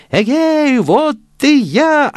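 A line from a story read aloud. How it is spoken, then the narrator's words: Shouted. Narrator (Russian): опять закричал Ганс Чурбан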